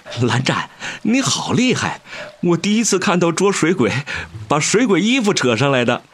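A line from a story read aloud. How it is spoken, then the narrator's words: Laughing hard. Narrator (Chinese): 魏无羡笑得险些一头栽进河里道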